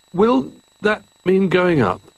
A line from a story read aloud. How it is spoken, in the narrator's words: asked Jolly nervously